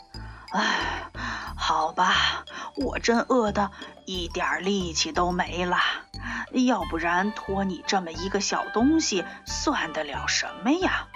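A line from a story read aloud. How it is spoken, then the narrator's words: Panting. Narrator (Chinese): 大狼先生喘着气说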